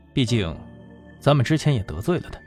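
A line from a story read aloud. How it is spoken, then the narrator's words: Flat, indifferent. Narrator (Chinese): 易兴淡淡的说道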